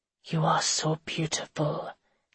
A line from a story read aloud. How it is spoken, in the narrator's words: he whispered in a thick, gruff voice